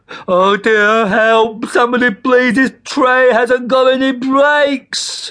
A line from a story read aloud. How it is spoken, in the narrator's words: shouted Tomsk again